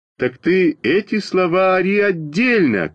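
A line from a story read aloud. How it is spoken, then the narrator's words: Shout. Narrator (Russian): крикнул я Веньке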